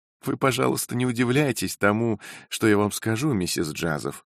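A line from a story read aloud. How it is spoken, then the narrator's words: Laughing. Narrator (Russian): проговорила она, все еще смеясь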